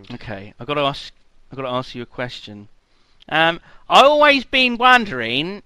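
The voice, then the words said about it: Deliberately bad put-on accent. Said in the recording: “terrible accent. Terrible. I apologise.”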